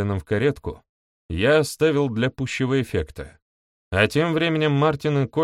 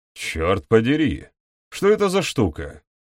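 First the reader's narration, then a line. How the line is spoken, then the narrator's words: Grumbling exclamation. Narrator (Russian): воскликнул он, и его будничное ворчание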